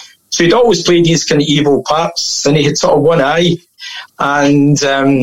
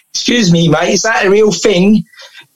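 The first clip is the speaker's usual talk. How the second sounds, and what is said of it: Put-on London accent. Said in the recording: “This is my best London accent I'm doing here.”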